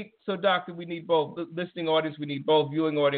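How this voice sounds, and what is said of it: Usual voice. Nothing is said of it.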